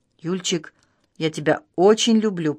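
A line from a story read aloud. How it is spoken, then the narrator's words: Whispering. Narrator (Russian): прошептал Федор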